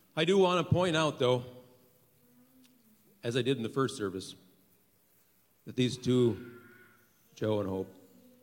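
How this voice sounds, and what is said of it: Slightly gravelly voice. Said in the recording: “going through one service, my voice gets a little gravelly”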